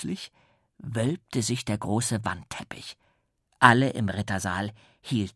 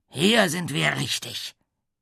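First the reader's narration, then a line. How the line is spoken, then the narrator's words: Deep rumbling voice calling. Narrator (German): rief die Brummstimme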